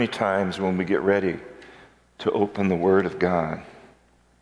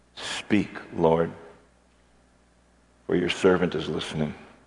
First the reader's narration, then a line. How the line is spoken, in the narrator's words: quietly, silently sit before the Lord and say